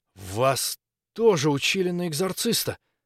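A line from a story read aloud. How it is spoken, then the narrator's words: Old man's hoarse cough. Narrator (Russian): Старик хрипло закашлялся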